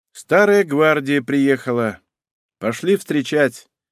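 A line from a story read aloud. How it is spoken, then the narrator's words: Sleepy young man. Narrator (Russian): молодой человек сонно поморщился, и сказал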